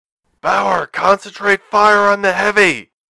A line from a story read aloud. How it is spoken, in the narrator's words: Thomas shout over the comm line, his voice distorted by the ECM